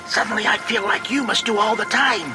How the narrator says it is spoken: she hissed

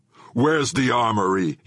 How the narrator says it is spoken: he roared

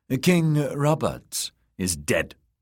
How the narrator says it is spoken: she said sharply

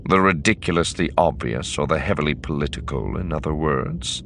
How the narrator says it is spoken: He asked dryly

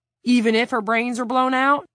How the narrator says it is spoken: He added hastily

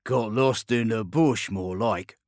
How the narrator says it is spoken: grumbled Chelvin Quintus, a tall, bulky man

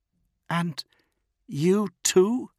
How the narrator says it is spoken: Grammaticus murmured

